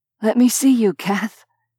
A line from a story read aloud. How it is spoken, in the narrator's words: he rasped, once she'd let him up for air